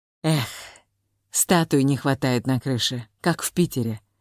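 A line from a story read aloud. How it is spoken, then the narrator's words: Sigh. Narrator (Russian): вздохнул Вася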